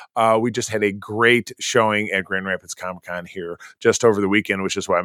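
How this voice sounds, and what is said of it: Raspy voice. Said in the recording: “my voice is so raspy”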